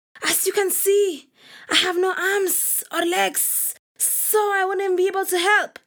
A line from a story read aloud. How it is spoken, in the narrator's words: Snake hissed